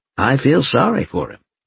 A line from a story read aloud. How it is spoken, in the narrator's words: Denise said